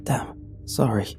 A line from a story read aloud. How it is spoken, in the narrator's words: he mumbles